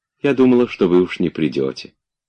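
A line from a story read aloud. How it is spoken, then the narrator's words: Affectionate. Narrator (Russian): сказала она ему ласково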